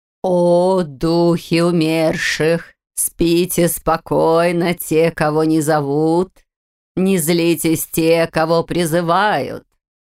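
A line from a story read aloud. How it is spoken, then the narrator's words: Sepulchral chanting. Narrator (Russian): Нараспев начала Эльвира, и от этого загробного голоса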